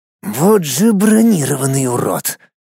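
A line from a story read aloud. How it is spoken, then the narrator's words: Angry, through gritted teeth. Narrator (Russian): зло процедил парень специфичного вида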